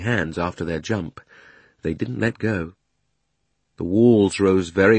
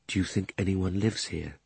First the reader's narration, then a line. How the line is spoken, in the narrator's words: said Diggory at last, still in a whisper